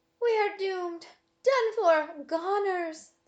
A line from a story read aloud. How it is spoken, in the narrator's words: wailing at the top of his lungs